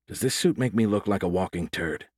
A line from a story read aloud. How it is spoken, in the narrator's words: he asked Lear quietly